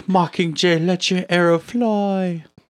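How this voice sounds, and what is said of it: Put-on British accent. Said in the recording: “the British accent that you just gave Julianne Moore”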